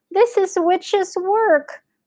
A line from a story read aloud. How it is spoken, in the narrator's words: cried Mr